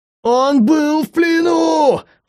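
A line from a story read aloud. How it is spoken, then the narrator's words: Creature howling. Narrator (Russian): взвыла тварь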